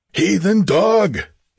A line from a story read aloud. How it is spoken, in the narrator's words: he bellowed